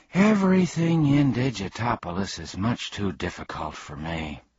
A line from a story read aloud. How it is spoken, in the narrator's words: admitted Milo